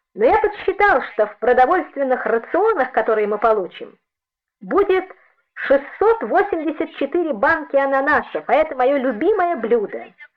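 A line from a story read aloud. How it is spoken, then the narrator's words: Laughing shamelessly. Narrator (Russian): ответил он, беззастенчиво смеясь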